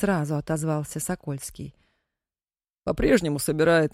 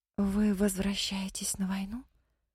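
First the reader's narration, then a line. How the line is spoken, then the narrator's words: Whispering. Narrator (Russian): прошептала Мэри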